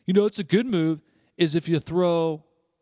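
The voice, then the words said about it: Imitates a woman coworker's voice. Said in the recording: “that's my impersonation number two ... That's her voice.”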